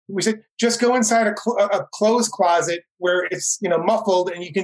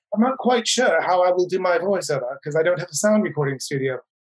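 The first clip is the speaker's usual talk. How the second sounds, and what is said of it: Bad put-on British accent. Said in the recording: “pardon my bad British accent here”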